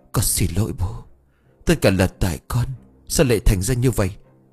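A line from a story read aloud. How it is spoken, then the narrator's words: Trembling. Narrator (Vietnamese): Ông run rẩy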